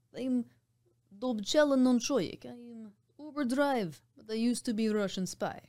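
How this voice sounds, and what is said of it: Poor put-on Russian accent. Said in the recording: “my Russian spy character... Horrible accent, but I did take Russian in college... so it should be better than it is, but it's not”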